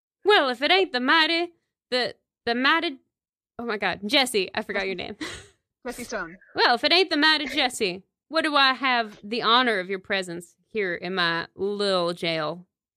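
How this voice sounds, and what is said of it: Put-on Southern accent. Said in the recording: “I'm just going to give him a standard Southern accent.”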